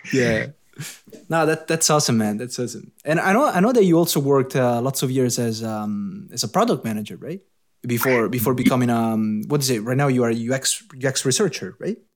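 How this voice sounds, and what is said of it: Italian accent. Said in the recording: “that's my Italian accent right there”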